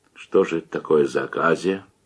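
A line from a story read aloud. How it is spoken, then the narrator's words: Louder shocked whisper. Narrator (Russian): уже громче прошептал потрясенный щукарь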